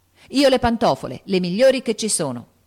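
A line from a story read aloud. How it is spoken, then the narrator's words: Shouted. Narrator (Italian): gridò Joe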